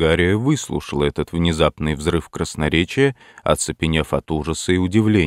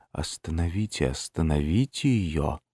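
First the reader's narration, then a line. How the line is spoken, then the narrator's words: Barely audible call. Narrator (Russian): она позвала еле слышным голосом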